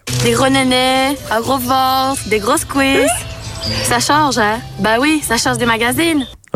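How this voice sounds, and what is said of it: Belgian Liège accent. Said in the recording (French): “un accent. Ah oui, j'ai dit un accent belge ... C'était liégeois”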